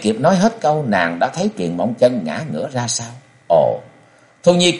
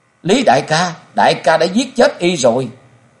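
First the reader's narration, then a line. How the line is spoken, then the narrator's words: Anguished wailing scream. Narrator (Vietnamese): Thu Nhi gào lên thảm thiết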